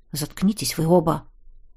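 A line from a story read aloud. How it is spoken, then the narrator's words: Barely audible. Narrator (Russian): едва слышно бросил фиолетовый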